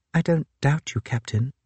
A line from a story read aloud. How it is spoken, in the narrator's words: I said sadly